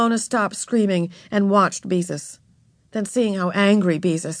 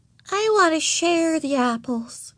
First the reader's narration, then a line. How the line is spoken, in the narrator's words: she said sweetly